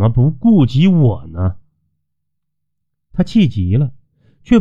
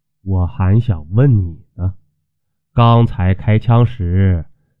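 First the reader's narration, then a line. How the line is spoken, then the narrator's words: Calm, flat. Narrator (Chinese): 淡淡回道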